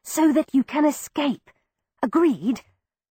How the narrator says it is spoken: told her softly but with clear emphasis

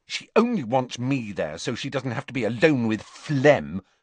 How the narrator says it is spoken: said Ginny crossly

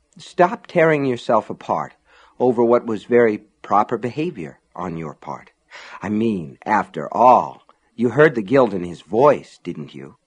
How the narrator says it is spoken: A voice, one she knew, whispered

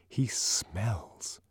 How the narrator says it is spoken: lowered her voice

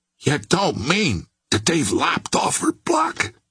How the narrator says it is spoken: he whispered in an awed voice

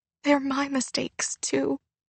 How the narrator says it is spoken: Naomi said quietly

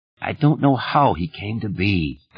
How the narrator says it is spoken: Thad said wearily

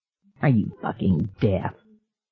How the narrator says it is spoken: Andy Barker snarled

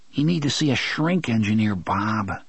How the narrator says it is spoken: Jake murmured

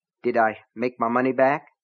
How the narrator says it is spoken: Keaton asked anxiously

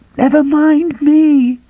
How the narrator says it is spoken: Carolyn screamed at him

